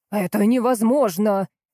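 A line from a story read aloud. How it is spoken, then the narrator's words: Shouting. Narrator (Russian): закричал он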